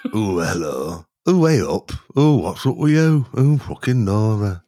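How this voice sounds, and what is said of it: Put-on regional Midlands accent. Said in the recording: “regional voices ... regional accents ... Just do an accent ... Just come from the Midlands”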